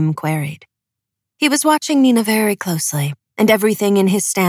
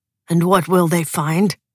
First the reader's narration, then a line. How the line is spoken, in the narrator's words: asked Broom